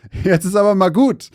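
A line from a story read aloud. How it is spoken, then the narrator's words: Laughing. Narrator (German): lachte Mason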